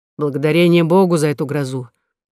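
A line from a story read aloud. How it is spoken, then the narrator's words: Grumbling. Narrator (Russian): проворчал Дюлют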